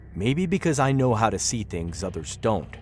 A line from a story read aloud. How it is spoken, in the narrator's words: Glenn answered curtly